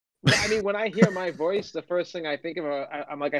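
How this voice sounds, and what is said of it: North Shore Massachusetts Boston accent. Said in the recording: “if you bury a Boston accent, it gets. ... like North Shore, Massachusetts, which is like New Jersey,”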